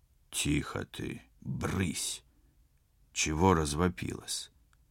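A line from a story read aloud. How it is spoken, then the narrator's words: Displeased male hiss. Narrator (Russian): Зашипел недовольный мужской голос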